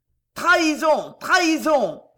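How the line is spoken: Howled. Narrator (French): hurla le comte de Loigne

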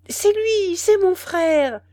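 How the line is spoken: Old woman exclaiming. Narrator (French): s'écria la vieille Maas

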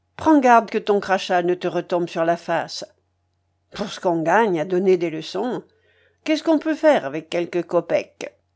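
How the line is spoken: Sour muttering to himself. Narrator (French): reprit-il d'un ton aigre en s'adressant plutôt à lui-même qu'à son interlocutrice

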